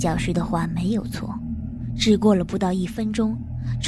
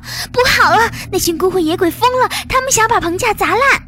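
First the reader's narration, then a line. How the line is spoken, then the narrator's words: Loud alarmed cry. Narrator (Chinese): 女教师再次大声惊呼道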